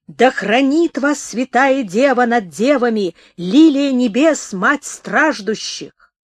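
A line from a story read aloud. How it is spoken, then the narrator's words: Priest speaking loudly. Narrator (Russian): ксенц издали громко сказал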